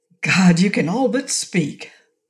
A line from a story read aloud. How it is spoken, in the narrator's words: John Thornton would reverently exclaim